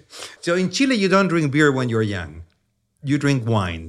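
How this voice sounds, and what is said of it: Heavy Chilean accent. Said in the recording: “That's where the accent comes from ... my heavy Chilean accent ... I still sound like I just came off the boat.”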